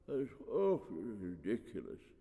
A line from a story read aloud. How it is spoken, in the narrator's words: wheezed the high priest in a fragile voice